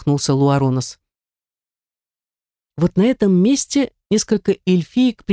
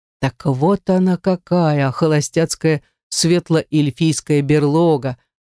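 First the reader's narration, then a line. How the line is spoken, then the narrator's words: Laughing. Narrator (Russian): засмеялась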